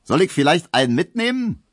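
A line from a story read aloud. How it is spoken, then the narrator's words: Cheerful call. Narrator (German): rief der fröhliche Leichenkutscher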